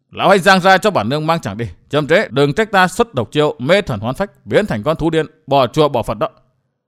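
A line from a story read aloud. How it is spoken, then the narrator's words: Angry. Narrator (Vietnamese): Trường Túc Mỹ Nhân giận dữ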